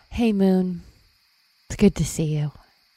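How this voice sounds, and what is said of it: Whispering. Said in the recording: “Someone whispering to the moon?”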